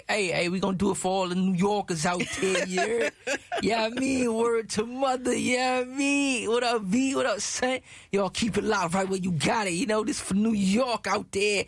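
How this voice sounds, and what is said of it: Put-on East Coast New York accent. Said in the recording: “Hope you like my East Coast accent.”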